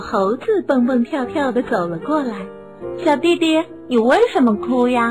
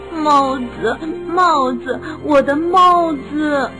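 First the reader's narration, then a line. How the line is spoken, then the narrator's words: Crying. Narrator (Chinese): 哭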